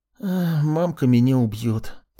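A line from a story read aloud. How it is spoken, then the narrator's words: Mournful sigh. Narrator (Russian): тоскливо вздохнул Колька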